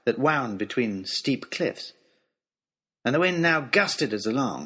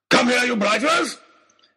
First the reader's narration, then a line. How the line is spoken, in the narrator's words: was shouting